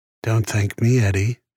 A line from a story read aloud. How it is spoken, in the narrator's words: she said with a sigh